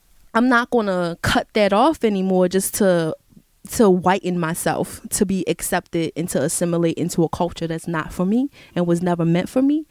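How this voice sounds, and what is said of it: Thick Baltimore accent, loud. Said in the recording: “I'm loud. That's how people in my family talk ... I have a thick Baltimore accent”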